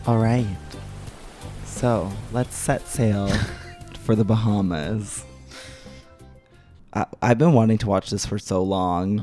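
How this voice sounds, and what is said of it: Hoarse voice. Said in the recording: “I tried to do seagull... I'm too hoarse.”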